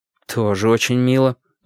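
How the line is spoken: Grim remark. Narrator (Russian): мрачно заметил

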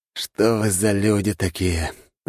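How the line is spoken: Resigned sigh. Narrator (Russian): обреченно вздохнул брат

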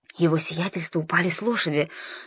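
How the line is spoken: Whisper. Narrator (Russian): шепнул ей кто-то

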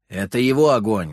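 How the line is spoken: Grim reply. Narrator (Russian): мрачно ответил куратор

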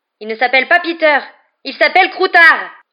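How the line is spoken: Yelled. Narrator (French): hurla Ron

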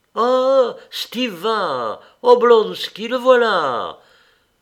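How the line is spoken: Delighted, smiling exclamations. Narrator (French): s'écriait-on presque toujours avec un sourire de plaisir

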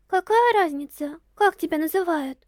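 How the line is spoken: Heavy sigh. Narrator (Russian): Киригири тяжело вздохнула

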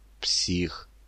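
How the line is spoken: Whispered. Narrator (Russian): прошептал Толя

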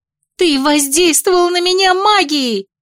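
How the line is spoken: Wail. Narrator (Russian): взвыла

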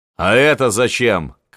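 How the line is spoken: Shouted. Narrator (Russian): крикнул Волынский

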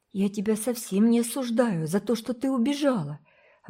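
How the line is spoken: Exclaiming. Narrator (Russian): воскликнула Фейт

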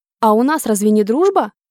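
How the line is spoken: Asked. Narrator (Russian): Задала обескураживающий вопрос

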